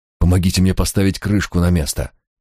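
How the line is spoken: Breathless exhale. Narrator (Russian): выдохнул он

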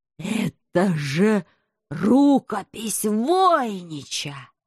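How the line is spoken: Slow. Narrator (Russian): медленно произнес Гармонага

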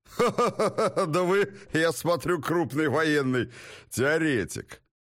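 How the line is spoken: Guttural laughter. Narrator (Russian): Уоттон гортанно расхохотался

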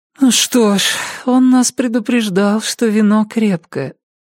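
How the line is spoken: Sleepy mumble. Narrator (Russian): сонно пробормотала дверь

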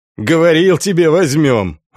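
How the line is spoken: Loud laughter. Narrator (Russian): расхохотался Волда

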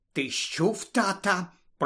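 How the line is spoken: Whisper. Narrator (Ukrainian): прошепотіла місіс Візлі

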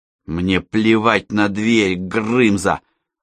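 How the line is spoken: Said through gritted teeth. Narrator (Russian): процедила Алла

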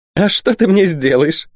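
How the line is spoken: Cackling, wicked woman. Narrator (Russian): захохотала негодная Вервольфа

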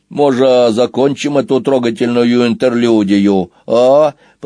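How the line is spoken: Grumbling. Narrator (Russian): проворчал Сквилл

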